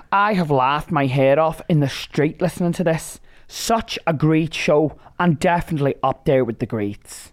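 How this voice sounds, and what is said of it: Put-on Irish accent. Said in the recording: “Oh, are you Irish as well now? ... I added a few little Irishisms there ... I really enjoyed your Irish accent as well. That could have been on Derry Girls.”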